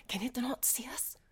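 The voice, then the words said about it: Stage whisper. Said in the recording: “That's the stage whisper. I'm whispering”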